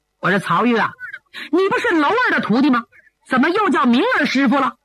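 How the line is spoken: Exasperated amusement. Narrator (Chinese): 白剑飞是又好气又好笑

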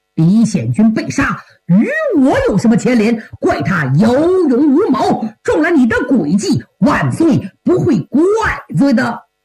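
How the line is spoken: Hurried, defensive. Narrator (Chinese): 林文善急忙强词夺理说

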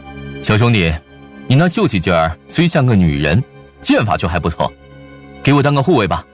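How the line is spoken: Triumphant hunter. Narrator (Chinese): 那些狩猎人胜利地笑了，其中一人对惠游说

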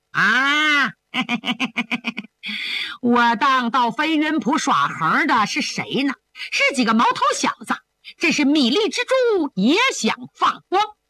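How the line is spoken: Laughing, condescending. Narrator (Chinese): 鬼影子甘飞为了抬高身价，哈哈一笑，倚老卖老地说

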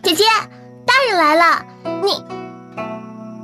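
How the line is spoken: Happy calling. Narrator (Chinese): 惹儿高兴地叫着

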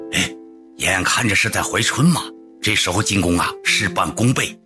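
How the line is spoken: Low voice. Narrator (Chinese): 压低嗓子

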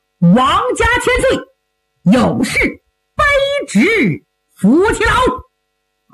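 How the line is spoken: Loud shout. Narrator (Chinese): 有人大喊一声

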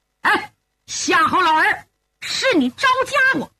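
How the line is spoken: Loud shout. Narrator (Chinese): 这才大喊一声

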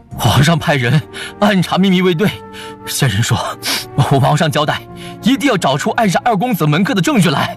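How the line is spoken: Breathless, panting. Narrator (Chinese): 沈都尉喘着粗气说

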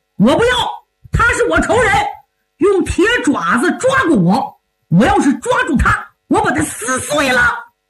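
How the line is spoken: Shouting. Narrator (Chinese): 郑印又喊上了

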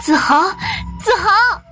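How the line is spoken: Emotional, excited shout. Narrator (Chinese): 一股亲情油然而生 激动地大喊

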